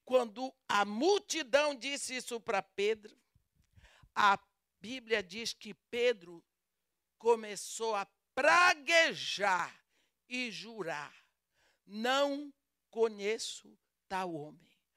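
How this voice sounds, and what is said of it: Brazilian Portuguese accent. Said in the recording (Portuguese): “meu sotaque não é lusitano? ... o meu sotaque denuncia que eu sou brasileira. Eu falo português com sotaque brasileiro”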